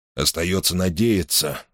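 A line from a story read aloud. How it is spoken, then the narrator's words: Gloomy, to himself. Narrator (Russian): мрачно сказал себе Мейсон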